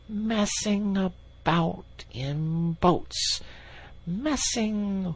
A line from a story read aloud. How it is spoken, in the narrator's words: he went on dreamily